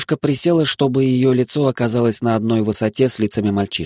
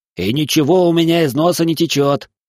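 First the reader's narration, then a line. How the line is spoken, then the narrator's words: Offended, sniffling mutter. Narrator (Russian): обиженно пробурчал Лазарь и шмыгнул носом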